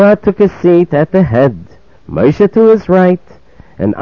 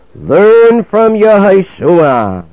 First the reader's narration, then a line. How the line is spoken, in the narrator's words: a heavenly voice called out and said to them